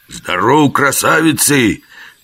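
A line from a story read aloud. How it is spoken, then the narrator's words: Loud bark over rumbling. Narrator (Russian): гаркнул Жихарь, стараясь перекричать бурчание в животе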